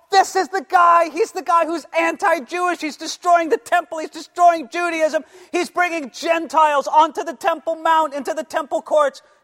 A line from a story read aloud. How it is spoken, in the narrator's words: Jews, they start screaming at Paul